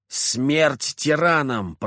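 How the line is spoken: Hoarse, heavily accented man. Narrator (Russian): прохрипел мужчина с явным акцентом

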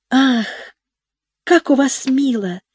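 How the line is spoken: Exclamation with slight sigh. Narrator (Russian): воскликнула девочка, слегка вздохнув

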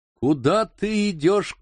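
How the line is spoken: Shouting. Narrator (Russian): крикнул он Киму

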